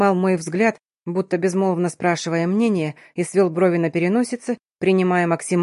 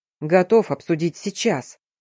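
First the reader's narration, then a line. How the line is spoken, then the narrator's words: Growl. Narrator (Russian): прорычал Тамир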